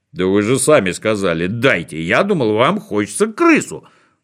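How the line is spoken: Confused muttering. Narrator (Russian): Растерянно пробормотал Бигль

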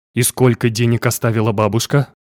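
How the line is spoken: Plain. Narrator (Russian): спросила Тия

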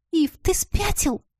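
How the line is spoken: Irritated hiss. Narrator (Russian): зашипела я раздраженно

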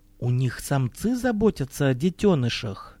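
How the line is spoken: Quiet chesty female voice. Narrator (Russian): тихим грудным голосом спросила одна из женщин

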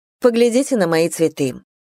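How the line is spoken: Softened, apologetic offer. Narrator (Russian): предложила она, чувствуя, что оборвала девушку слишком резко

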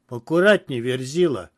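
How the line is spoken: Sharp shout. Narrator (Russian): прикрикнул на меня Адам

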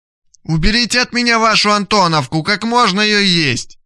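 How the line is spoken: Disgusted shout, muffled. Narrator (Russian): брезгливо кричала Лия, закрыв руками нос

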